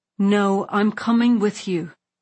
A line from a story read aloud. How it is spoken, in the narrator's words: I said firmly